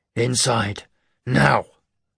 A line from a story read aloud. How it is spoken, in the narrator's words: Garrick snarled